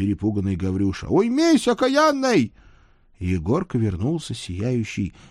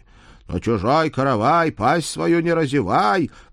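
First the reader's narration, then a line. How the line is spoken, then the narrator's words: Agreeing. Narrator (Russian): поддержала вторая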